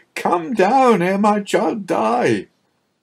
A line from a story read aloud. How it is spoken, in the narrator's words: cried